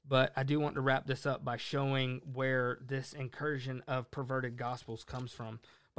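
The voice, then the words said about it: Hoarse, fading voice. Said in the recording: “I'm starting to lose my voice”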